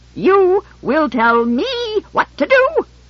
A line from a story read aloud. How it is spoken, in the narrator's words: he shrieked, vibrating with outrage